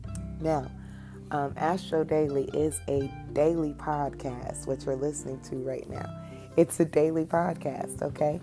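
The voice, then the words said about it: Heavy-sounding voice. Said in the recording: “my voice is still heavy sounding. It may be trying to take another vacation”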